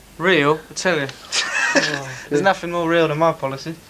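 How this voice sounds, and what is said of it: Fake put-on accent. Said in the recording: “your accent? That's not real. That's false.”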